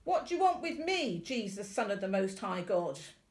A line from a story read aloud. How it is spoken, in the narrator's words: he shouted at the top of his voice